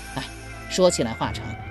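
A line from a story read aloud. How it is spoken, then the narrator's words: Long sigh. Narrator (Chinese): 任伯宇长叹一声道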